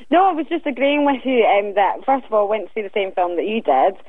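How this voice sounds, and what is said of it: Softened Glasgow Scottish accent. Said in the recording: “Is that Scottish? ... It's like Glasgow, isn't it? ... So that's a proper Scottish accent. ... It's softened, but it's definitely there.”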